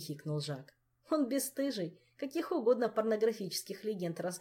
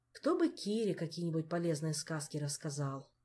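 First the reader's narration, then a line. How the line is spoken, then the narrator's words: Pensive sighing king. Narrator (Russian): Снова вздохнул король и задумчиво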